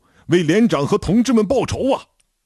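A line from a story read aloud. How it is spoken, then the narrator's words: Furious roar. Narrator (Chinese): 我杀红了眼，一声大吼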